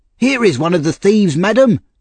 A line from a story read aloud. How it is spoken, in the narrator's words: he shouted up the stairs